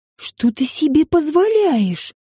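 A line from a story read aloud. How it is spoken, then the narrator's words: Hissing. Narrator (Russian): прошипела Регина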